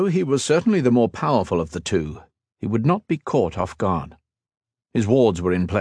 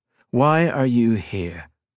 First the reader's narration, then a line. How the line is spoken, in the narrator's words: he demanded in a low, even tone